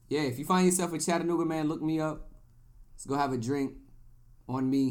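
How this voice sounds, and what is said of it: Usual voice. Nothing is said of it.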